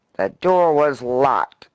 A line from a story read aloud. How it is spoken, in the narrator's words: snarled the eminent lobbyist